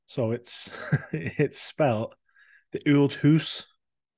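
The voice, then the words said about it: Put-on Scottish accent. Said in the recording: “Scottish accent ... Nice accent.”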